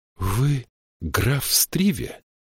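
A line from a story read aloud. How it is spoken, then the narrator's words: Breathless. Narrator (Russian): выдохнула Мириамель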